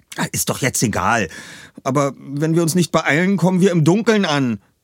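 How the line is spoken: Called out. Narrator (German): rief Peter

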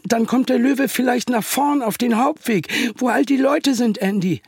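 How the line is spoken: Unsure voice. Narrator (German): sagte Peter mit unsicherer Stimme

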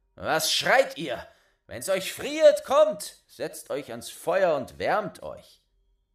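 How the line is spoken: Called out. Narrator (German): rief er

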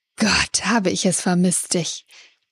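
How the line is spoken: Hissed. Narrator (German): Die Dame zischte

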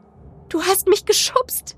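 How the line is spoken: Sobbing. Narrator (German): schluchzte

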